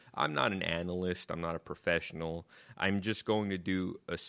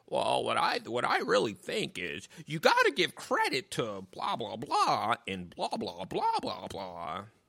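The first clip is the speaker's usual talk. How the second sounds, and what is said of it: Poor impression of ESPN analyst. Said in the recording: “doing their best impressions of ESPN analysts ... That probably wasn't a good impression of anything.”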